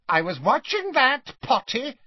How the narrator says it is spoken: he told Harry indignantly

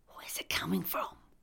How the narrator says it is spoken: I whispered

